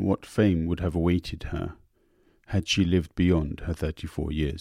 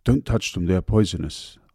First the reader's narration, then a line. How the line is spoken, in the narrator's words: I said